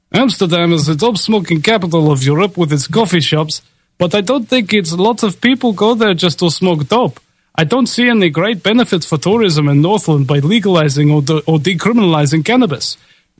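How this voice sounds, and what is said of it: Attempted Dutch accent. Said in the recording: “Can I ever do a Netherlands accent? I don't know if it's in my repertoire. Let's just try something.”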